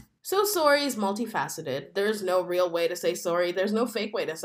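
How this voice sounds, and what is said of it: Usual voice. Nothing is said of it.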